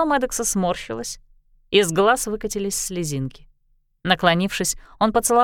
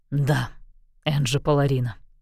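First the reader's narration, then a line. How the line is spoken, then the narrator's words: Hoarse reply. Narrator (Russian): хрипло ответил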